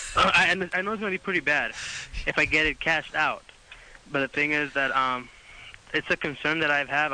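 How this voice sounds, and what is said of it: Thick accent. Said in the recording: “You have a thick accent.”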